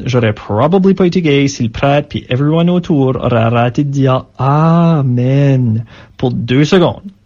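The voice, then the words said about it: Acadian French accent. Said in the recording (French): “ce mélange d'anglais, de franglais, comme on dit, et puis cet accent acadien”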